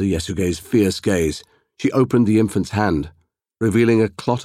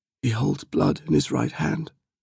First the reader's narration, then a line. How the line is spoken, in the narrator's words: whispered